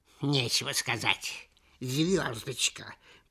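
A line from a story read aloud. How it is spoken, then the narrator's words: Hissing old voice. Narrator (Russian): прошипел толстый старый слизняк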